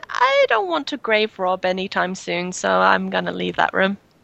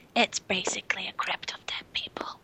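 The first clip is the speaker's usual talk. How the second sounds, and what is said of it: Whispering. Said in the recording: “I kind of whisper,”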